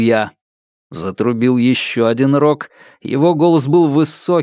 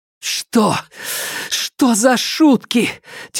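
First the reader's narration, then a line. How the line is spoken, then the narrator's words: Heavy exhale. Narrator (Russian): тяжело выдохнула Нелит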